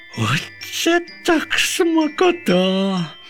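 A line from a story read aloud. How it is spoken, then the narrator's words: Sudden cry. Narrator (Ukrainian): скрикнув пончик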